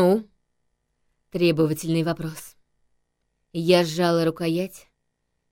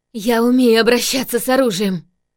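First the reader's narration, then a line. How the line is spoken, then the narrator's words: Trembling shout. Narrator (Russian): выкрикнула дрожащим голосом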